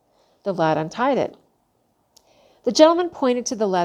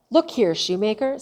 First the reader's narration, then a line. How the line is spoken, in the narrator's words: said he